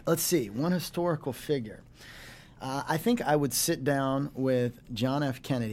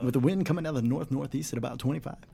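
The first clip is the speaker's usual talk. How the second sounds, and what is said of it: Deep announcer-style radio voice. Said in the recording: “your radio voice ... you do have a good radio voice. ... It's like the movie phone guy.”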